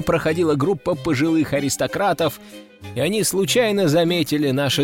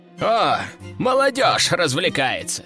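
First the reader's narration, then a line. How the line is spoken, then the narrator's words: Old man's chortle. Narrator (Russian): хохотнул старый аристократ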